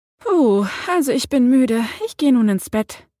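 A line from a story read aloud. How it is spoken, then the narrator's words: Tired sigh. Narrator (German): seufzte Jenna, eine Ravenclaw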